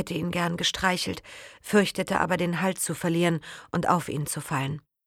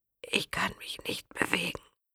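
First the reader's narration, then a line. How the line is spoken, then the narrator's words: Whispered. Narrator (German): flüsterte Matteo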